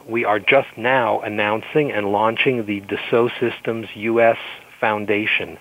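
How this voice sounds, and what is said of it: French accent in English. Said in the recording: “European, French origin, as you can hear. ... My lousy French accent.”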